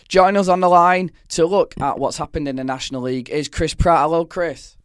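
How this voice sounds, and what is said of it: Croaky, hoarse voice. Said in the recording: “croaky voice and all ... this sexy voice”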